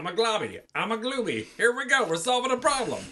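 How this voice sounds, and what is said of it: Generic animated kids-movie voice. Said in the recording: “that was my impression of every Pixar and Disney movie of the last 20 years ... they're very at a like similar pitch”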